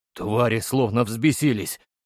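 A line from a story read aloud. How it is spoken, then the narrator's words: Muttered. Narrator (Russian): пробормотал боец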